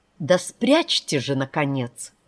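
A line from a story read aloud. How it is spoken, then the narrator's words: Irritated. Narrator (Russian): раздраженно сказал Спанокки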